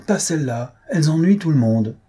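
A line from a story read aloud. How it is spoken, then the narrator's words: Nobleman exclaiming. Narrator (French): s'écria le comte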